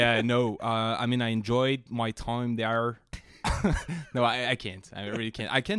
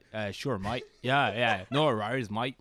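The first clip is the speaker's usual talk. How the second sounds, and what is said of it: Put-on Australian accent. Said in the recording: “a beautiful Australian accent”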